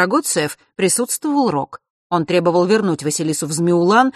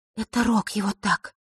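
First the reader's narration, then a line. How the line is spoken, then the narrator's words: Quiet speech. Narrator (Russian): тихо произнесла Диана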